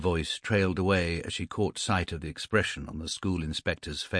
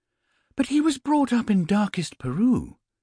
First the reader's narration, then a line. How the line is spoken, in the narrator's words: exclaimed Mrs